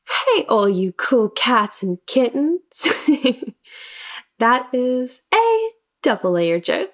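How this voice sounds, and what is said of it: Speaks with a noticeable accent. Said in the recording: “if you can't tell by my accent already”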